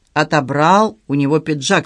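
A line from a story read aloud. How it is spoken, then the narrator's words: Sighing. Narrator (Russian): сказала Клара, вздохнув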